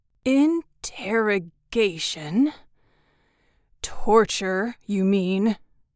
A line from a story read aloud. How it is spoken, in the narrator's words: the man, who had spoken slowly, almost scornfully